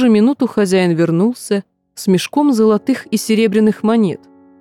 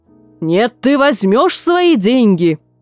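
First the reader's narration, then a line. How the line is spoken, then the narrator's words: Roaring. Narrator (Russian): Взревел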